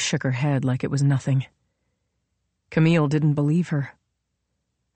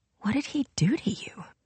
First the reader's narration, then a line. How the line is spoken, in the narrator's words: Finally, she whispered